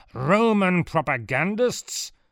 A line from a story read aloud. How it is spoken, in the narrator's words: Adrenodorus bellowed at a guard